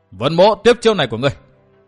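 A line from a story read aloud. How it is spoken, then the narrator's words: Hurried loud shout. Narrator (Vietnamese): Vân Thiên Nhạc vội quát lớn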